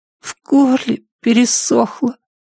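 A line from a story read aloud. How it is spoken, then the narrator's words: Hoarse whisper. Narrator (Russian): хрипло прошептал Шон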